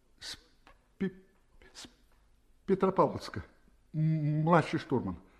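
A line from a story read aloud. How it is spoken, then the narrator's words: Stuttering reply. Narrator (Russian): опять заикаясь, ответил Левитин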